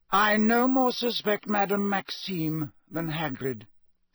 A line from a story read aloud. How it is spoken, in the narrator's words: said Dumbledore just as calmly